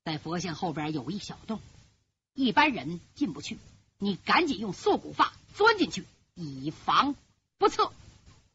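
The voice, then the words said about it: Low, hushed voice. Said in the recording (Chinese): “低低的声音说”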